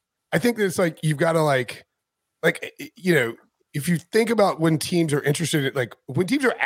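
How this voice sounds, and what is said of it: Usual voice. Nothing is said of it.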